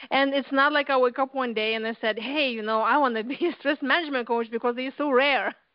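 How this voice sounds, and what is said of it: Lithuanian accent. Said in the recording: “As you can tell with my, you know, from my accent, ... from Lithuania”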